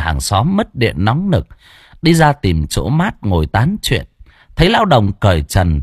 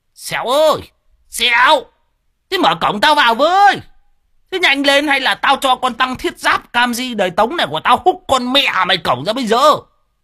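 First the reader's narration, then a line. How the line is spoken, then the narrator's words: Bellowing old man. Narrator (Vietnamese): Lão Đồng chõ mõm vào mà gào lên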